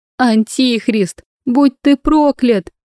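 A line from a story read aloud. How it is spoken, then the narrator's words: Wild scream. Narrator (Russian): дико закричала какая-то женщина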